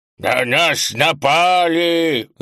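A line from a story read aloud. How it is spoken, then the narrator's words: Shout, unexpectedly low voice. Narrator (Russian): закричала она неожиданно низким голосом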